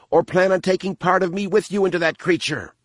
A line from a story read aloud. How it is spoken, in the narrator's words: the alien squealed in a pained voice